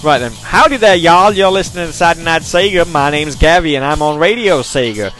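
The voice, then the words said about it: Put-on American southern accent. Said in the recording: “Give us a southern accent.”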